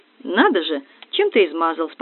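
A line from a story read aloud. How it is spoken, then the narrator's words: Calm. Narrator (Russian): спокойно ответил кавалер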